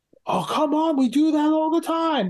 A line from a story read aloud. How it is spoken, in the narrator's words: he yells